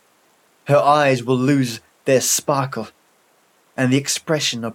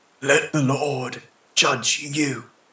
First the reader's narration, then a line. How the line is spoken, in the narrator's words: whispered the old man, shaking his grey head while tears silently ran down his cheek